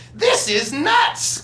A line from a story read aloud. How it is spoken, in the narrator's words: cried another